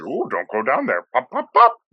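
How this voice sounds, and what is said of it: Teasing Pennywise impression. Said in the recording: “Doing a little impression.”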